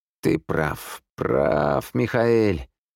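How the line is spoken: Drawn-out. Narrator (Russian): протянул Николас

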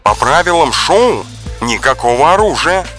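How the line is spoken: Commanding bark. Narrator (Russian): командным голосом рявкнула Майя Герц

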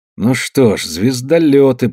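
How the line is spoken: Muttered. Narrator (Russian): пробормотал Камадин

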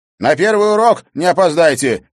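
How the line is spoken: Shouted after someone leaving. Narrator (Russian): крикнул Олег вдогонку приятелям

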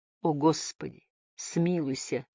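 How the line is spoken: Mumbling. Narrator (Russian): забормотал Стокс

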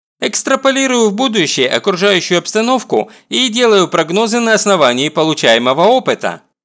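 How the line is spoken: Brisk cheerful report. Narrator (Russian): бодро рапортую я

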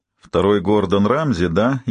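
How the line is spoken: Snide smirk. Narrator (Russian): ехидно ухмыльнулся я

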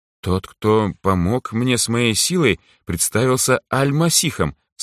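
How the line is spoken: Calm. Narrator (Russian): спокойно ответил я

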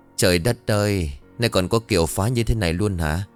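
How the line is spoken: Sigh. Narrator (Vietnamese): cô thở dài

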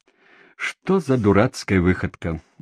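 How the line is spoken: Laughing. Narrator (Russian): носильщик рассмеялся

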